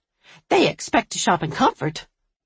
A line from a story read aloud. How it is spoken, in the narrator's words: Audrey snapped